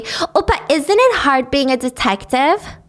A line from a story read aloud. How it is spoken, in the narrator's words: says loudly